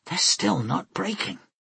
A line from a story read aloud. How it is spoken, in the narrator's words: Vlora breathed